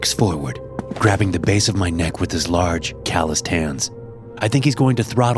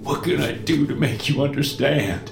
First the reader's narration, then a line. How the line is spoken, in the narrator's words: he whimpers